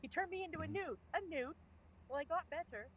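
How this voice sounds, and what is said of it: Poor put-on English accent. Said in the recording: “pardon my English accent's terrible”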